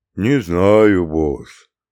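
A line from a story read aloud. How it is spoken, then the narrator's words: Gloomy droning mutter. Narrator (Russian): уныло бубнил Бруно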